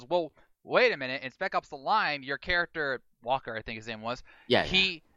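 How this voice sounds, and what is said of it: Usual voice. Nothing is said of it.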